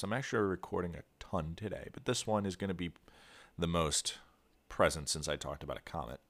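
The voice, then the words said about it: Nasal, congested voice. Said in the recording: “I might sound a little nasally today. Yeah, my nose is somewhat blocked up... I sound a little weird”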